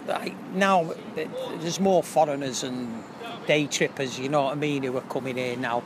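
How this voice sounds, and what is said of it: Strong Manchester accent. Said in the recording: “You've got the most Manchester accent ever.”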